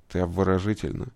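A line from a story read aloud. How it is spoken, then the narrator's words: Quiet words. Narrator (Russian): тихо сказал Джек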